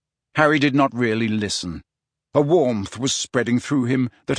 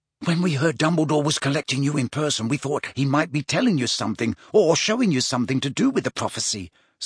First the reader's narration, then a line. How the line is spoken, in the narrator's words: said Ron eagerly